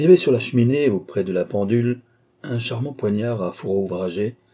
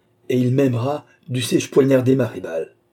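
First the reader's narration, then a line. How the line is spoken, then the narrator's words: Cried out. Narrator (French): s'écria-t-elle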